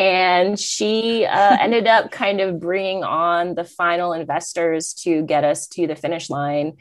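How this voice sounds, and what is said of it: Usual voice. Nothing is said of it.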